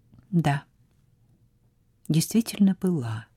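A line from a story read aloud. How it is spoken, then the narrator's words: Very quiet. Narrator (Russian): сказала совсем тихо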